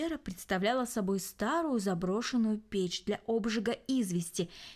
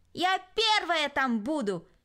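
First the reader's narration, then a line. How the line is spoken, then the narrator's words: Shouting. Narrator (Russian): крикнула Кристина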